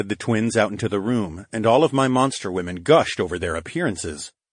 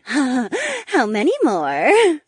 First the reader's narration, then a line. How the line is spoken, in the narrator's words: second twin giggled